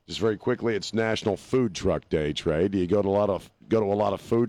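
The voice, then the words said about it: Rough, congested-sounding voice. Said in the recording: “my voice is a little messed up. I've had this mold crap in my chest all week ... my voice sounds like hell”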